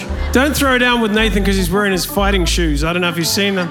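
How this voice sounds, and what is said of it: New Zealand accent. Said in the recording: “your accent is a little bit different than the Australian accent ... I am from New Zealand”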